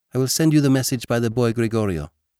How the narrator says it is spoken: said the girl

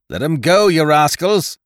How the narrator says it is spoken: he cried

